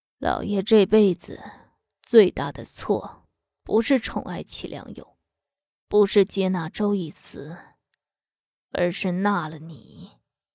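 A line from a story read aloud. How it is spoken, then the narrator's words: Hoarse. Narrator (Chinese): 他沙哑地说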